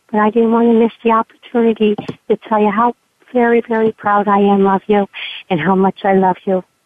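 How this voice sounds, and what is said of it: Hoarse, fading voice. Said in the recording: “I'm kind of losing my voice here”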